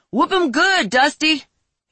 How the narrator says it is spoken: He shouted

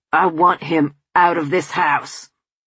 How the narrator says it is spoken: he roared

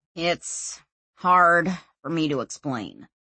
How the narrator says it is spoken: he said, sighing

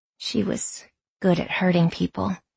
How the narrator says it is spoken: Lexi said quietly

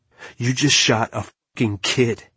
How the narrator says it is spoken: I spat

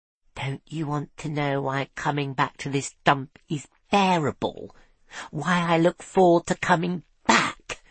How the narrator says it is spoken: Tiffany whispered

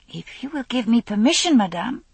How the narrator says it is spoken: said eagerly

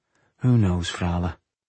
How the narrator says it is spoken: he mumbled, hoping to dismiss the gloomy subject

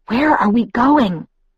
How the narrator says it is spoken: I couldn't stop whispering

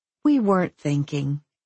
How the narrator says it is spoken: I answered sweetly

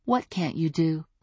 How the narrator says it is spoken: I asked gently

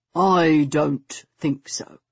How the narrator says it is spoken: Stoker said in a dangerously even voice

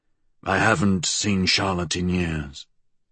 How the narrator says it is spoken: he said flatly

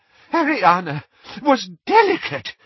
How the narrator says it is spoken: said Doge desperately

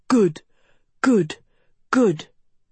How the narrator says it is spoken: the cheers grew louder, angrier

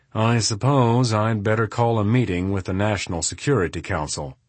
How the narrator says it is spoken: with a sigh, he said

